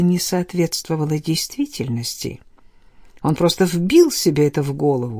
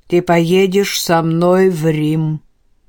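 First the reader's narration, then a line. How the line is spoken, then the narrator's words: Loud declaration. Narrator (Russian): громко заявил он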